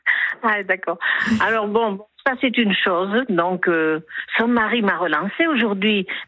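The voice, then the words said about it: Southwestern French accent. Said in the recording (French): “le petit accent du sud-ouest”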